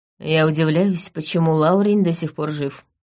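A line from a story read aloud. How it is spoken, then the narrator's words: Gloomy. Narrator (Russian): мрачно сказала я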